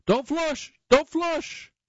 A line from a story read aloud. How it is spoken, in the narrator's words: flails his arms and shouts